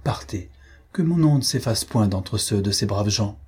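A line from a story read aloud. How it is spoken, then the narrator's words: Firm. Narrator (French): Il reprit d'un ton ferme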